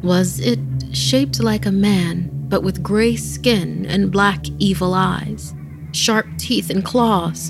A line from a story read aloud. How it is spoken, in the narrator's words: her mother asked